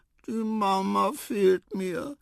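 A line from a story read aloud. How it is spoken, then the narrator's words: Sigh. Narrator (German): seufzte Quava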